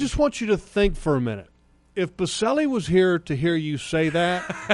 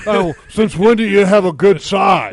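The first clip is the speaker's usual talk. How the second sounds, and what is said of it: Imitates another person's voice. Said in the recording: “my best Baselli impersonation”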